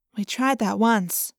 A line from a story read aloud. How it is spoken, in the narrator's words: Cassie said quietly